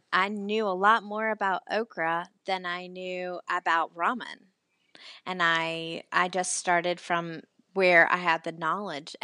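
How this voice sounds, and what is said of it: Southern American accent. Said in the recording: “obviously am Southern. I know you can't tell from my accent”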